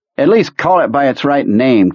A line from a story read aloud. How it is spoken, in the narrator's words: Cambry nearly spat